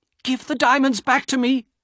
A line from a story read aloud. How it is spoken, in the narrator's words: Elena cried